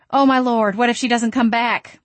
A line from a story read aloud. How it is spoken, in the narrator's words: I cried